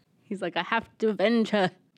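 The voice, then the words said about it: Weak put-on accent. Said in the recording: “I don't do a very good accent.”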